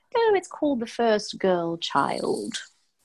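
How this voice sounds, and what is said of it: Dramatic put-on British accent. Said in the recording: “with a very dramatic British accent”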